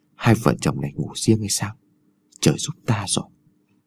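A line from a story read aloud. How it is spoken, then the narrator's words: Old man whispering. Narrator (Vietnamese): lão thì thào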